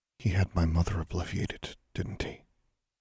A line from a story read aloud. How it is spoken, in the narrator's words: Alexandra asked quietly